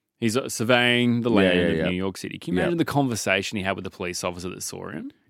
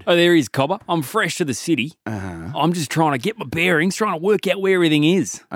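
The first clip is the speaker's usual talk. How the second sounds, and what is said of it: Put-on Australian accent. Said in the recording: “The accent is throwing me off quite a little bit. Whereabouts are you from? ... I'm from far northern territory in Australia”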